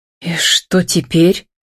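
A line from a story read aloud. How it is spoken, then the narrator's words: Tense exhale. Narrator (Russian): напряженно выдохнула Татьяна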